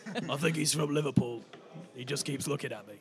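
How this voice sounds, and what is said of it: Raspy heavy-smoker female character voice. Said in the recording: “I can't do a female voice, shall I just do like a like she smokes like 20 a day or something?”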